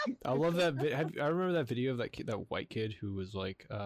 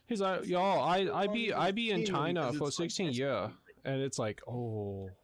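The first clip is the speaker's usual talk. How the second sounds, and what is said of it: Put-on Chinese accent. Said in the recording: “he has like a really authentic Asian or Chinese accent”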